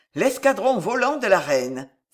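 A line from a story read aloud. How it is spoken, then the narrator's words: Exclaimed. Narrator (French): s'écria Guise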